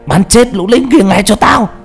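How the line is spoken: Commander shouting. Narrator (Vietnamese): thằng chỉ huy hét lên

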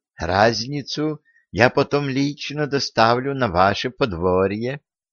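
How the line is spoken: Conspiratorial whisper. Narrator (Russian): прошептал казначей, заговорщически подмигивая

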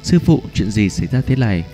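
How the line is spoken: Urgent anxious question. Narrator (Vietnamese): cẩn thận nhẹ nhàng, trong lòng gấp giọng hỏi

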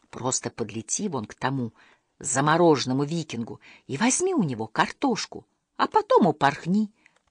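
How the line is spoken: Whispered. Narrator (Russian): прошептал Иккинг

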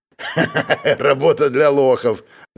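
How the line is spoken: Laughing. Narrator (Russian): рассмеялся знакомец Гу

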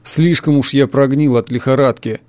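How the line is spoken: Grumbling. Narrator (Russian): проворчал Боркман

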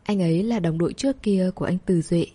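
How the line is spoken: Gentle speech. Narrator (Vietnamese): Cô nhẹ nhàng nói

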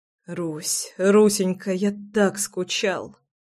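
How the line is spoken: Whispering between kisses. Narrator (Russian): шептал я между поцелуями

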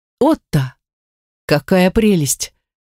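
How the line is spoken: Delighted exclamation. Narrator (Russian): воскликнула Гортензия

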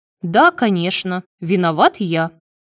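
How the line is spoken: Snapping retort. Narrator (Russian): огрызнулся Марат

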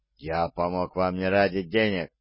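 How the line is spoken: Through gritted teeth. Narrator (Russian): бросил он сквозь зубы

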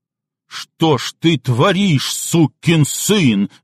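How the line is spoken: Roar. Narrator (Russian): взревел он

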